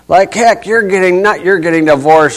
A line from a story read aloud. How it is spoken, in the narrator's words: she shouts